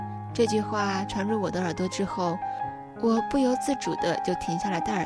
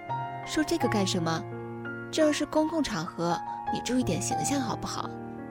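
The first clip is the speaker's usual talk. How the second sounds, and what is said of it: Henan Jiaozuo regional accent. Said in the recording (Chinese): “一口河南口音，更进一步说应该是河南焦作口音”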